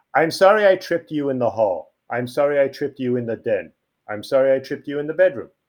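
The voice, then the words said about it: Long Island accent. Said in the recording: “Enjoy the Long Island accent. It's prevalent.”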